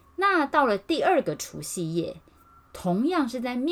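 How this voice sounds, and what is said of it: Usual voice. Nothing is said of it.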